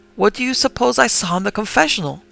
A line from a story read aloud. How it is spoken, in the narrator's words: exclaim